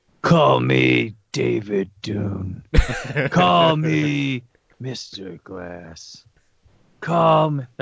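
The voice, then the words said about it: Imitates a movie character's voice. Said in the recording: “my Aquaman impersonation”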